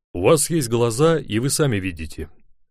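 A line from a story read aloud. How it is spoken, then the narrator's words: Almost rude. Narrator (Russian): отвечал я почти грубо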